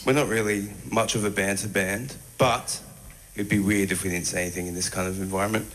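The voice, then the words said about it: Very strong Australian accent. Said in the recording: “very strong Australian accent ... we had that very strong accent coming through from this artist”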